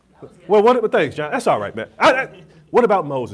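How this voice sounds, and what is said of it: Imitates an old black man's voice. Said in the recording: “my old black man impersonation ... I'll use my normal voice”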